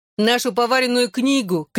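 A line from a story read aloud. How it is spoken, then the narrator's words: Shouted. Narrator (Russian): крикнул Алфи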